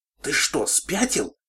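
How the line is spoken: Furious hiss. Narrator (Russian): яростно зашипела Кросс

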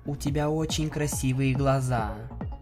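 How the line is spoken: Soft, clear cooing. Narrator (Russian): Тихо, но четко проворковала она

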